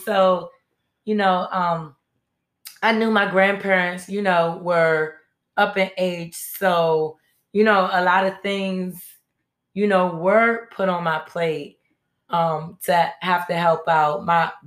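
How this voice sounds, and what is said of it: Hoarse voice cutting in and out. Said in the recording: “I have a cold, so my voice is going in and out.”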